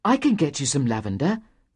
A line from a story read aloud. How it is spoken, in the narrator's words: said Aaron eagerly